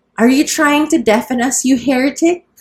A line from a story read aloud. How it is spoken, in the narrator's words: cried Aunt Isabel